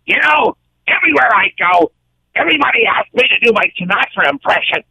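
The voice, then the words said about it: Gilbert Gottfried impression. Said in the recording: “I'm going to try to impersonate Gilbert Gottfried”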